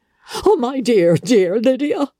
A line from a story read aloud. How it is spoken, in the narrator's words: she cried